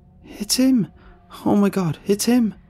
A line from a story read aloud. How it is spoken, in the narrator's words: she gasped harshly